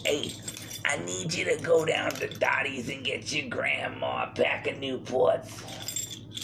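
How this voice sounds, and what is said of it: Imitates another person's voice. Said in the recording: “That's just my impression. I call that one Aunt Betty.”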